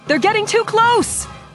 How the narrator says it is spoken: Leia shouted

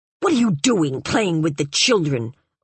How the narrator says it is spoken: old Aunt Dinemi asked him so fiercely

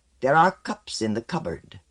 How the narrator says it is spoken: Pasphal said sharply

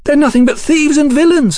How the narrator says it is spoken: Sybil shouted alertly

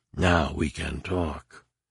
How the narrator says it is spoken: The real Leia, her voice a faint whisper, said

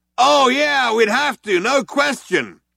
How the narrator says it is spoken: the other one yelled back

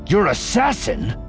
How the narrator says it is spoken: Voss snapped

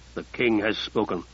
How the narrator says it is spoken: Eumenes growled

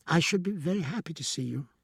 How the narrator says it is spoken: she said a little nervously

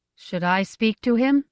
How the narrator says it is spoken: Gift asked in a steady voice

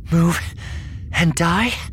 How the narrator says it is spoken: Vestara gasped, still breathing hard

